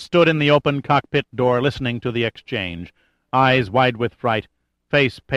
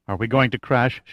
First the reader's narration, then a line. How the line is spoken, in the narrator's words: asked, barely above a whisper